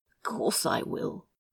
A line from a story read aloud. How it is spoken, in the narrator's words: Crowley said, more choked with every passing second